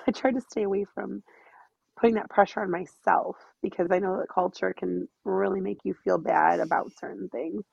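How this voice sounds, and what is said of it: Sick-sounding, congested voice. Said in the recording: “apologize for my voice because I have a cold.”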